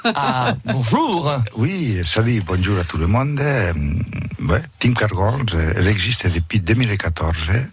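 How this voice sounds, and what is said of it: Catalan-accented French. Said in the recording (French): “Vous avez un accent qui me fait rêver, j'adore. ... De Barcelone de Lleida.”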